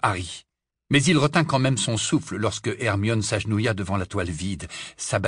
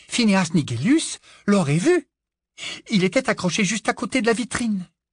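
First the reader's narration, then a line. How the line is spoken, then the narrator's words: Breathless voice. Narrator (French): dit-elle d'une voix essoufflée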